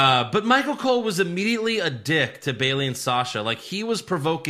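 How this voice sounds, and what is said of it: Usual voice. Nothing is said of it.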